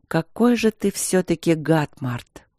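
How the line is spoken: Weary. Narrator (Russian): сказала она устало

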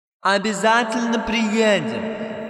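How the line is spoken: Shouting from a window. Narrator (Russian): закричала Кикимора, высовываясь из окна

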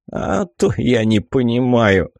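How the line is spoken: Snort. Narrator (Russian): хмыкнул он

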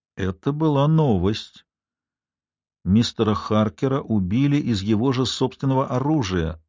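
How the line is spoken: Slow. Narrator (Russian): медленно проговорила я

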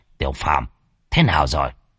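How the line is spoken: Quiet voice, old man. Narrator (Vietnamese): Lão nhỏ giọng

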